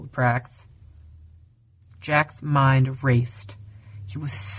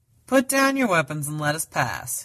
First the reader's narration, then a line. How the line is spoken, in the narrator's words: he called out